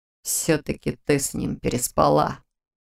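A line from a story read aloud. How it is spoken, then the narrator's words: Through gritted teeth. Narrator (Russian): процедил демон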